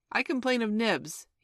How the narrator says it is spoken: he cried promptly

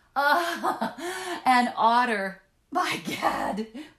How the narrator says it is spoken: we exclaimed in the same breath, laughing

